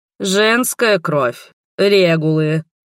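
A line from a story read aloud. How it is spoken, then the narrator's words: Irritated, through gritted teeth. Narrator (Russian): раздражаясь, процедила настоятельница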